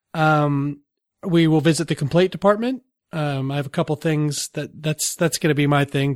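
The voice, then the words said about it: Slightly sick-sounding voice. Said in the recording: “sorry for my voice tonight. I'm starting to get a little sick”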